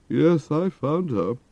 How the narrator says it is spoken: replied with one of those bitter, mirthless laughs

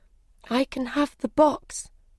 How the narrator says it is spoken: said Alice sadly

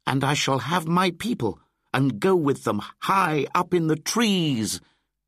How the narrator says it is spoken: shouted Mowgli

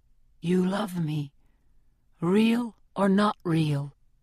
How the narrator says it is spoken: he whispers

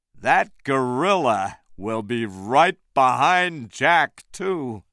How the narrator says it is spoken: Carl said slowly

